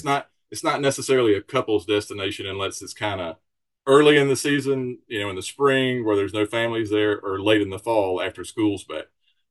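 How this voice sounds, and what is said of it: Mild Southern US accent. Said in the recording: “you've got a bit of like a southern accent, I suppose ... I am from Alabama”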